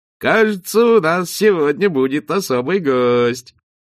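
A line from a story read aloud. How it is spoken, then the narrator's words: Adult, mocking. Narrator (Russian): один из взрослых вдруг говорил насмешливо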